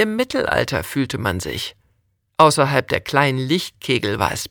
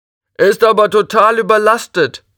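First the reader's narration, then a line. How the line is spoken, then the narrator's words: Another voice calling. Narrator (German): rief eine andere Stimme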